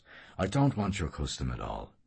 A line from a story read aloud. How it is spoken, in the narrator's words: the caretaker answered in a low voice